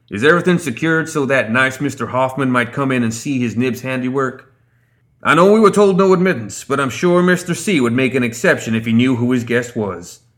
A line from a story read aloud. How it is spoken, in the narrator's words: shouted over his shoulder